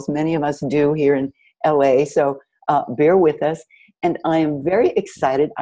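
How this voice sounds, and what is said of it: Low, husky, congested voice. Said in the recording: “Your voice sounds a little bit different today ... my very bad Lauren Bacall imitation ... got a little bit of sniffles”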